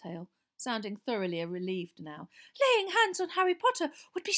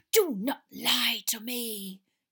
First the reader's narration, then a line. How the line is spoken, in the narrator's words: hissed the second voice